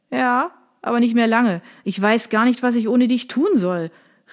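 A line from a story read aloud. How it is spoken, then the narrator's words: Calling after someone. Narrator (German): rief ihr Sergio nach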